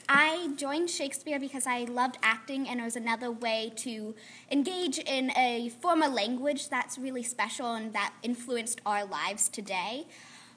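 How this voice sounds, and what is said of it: Unusual regional accent. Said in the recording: “just have a weird accent”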